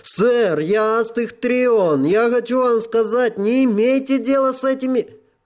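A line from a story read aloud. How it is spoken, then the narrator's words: Shouting. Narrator (Russian): Один из техов крикнул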